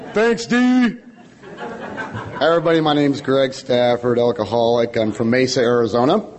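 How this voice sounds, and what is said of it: Hoarse, worn-out voice. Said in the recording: “my voice is going a little bit ... did a little bit too much hooping and hollering ... My voice was kind of gone”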